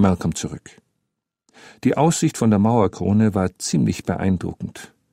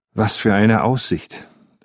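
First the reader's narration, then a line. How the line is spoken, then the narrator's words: Plain. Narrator (German): sagte Jury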